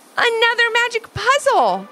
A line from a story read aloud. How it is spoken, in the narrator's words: Levi and Ivy exclaimed together